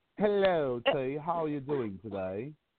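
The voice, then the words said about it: Put-on British accent. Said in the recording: “who got better British accent”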